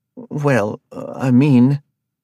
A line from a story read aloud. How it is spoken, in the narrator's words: Arthur stuttered